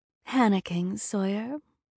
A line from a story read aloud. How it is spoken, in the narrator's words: A familiar voice purred, dripping with malice